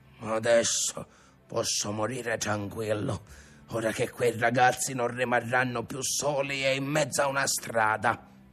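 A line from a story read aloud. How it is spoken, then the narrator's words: Grandfather's tearful grumbling. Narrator (Italian): Il nonno si soffiava il naso anche lui e brontolava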